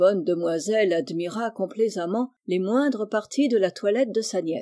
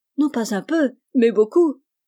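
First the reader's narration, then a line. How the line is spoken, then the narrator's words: Exclaimed. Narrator (French): s'écria Rose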